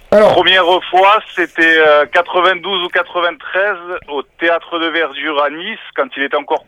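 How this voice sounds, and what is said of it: Very strong regional French accent. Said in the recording (French): “tu as un accent pas possible”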